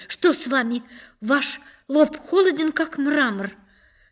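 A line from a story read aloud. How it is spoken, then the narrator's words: Alarmed cry. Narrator (Russian): она вскрикнула с тревогой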